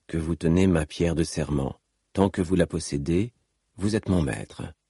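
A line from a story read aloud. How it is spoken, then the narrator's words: Calm declaration. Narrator (French): déclara Seth calmement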